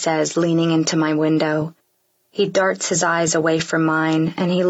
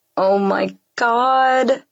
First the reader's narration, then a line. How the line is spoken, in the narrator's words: groan